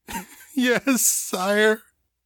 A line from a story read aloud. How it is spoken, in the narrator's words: sobbed, feeling the last shred of hope drain out of her